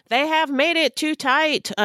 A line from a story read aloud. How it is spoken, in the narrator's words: Ferguson shouted